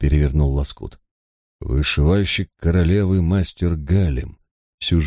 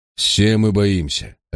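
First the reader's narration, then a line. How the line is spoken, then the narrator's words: Sharp reply. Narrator (Russian): резко ответил Парр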